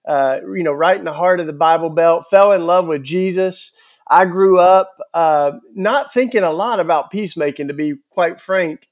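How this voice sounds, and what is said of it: Southern US accent. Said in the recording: “my Southern accent. I'm a Southern born. I grew up in Tennessee,”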